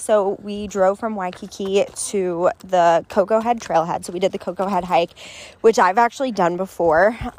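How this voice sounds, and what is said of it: Breathless, out of breath. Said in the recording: “little out of breath. Actually, I'm really out of breath.”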